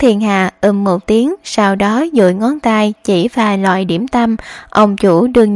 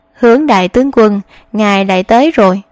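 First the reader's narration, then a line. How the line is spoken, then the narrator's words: Smiling. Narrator (Vietnamese): Ông chủ kia mỉm cười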